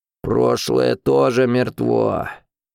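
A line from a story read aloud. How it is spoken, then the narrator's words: Grumbling. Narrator (Russian): проворчал он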